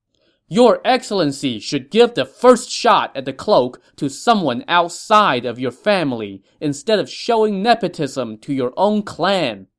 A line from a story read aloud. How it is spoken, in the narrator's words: an officer from the Green Group shouted